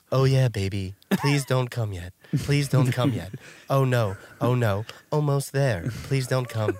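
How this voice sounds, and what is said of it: Sex robot character voice. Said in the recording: “If you had a sex robot, that would be your sex robot voice ... That would be my sex robot voice.”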